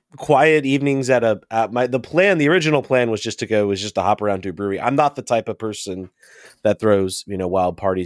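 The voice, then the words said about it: Sick, congested-sounding voice. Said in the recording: “I picked up a cold ... You can probably hear it in my voice right now.”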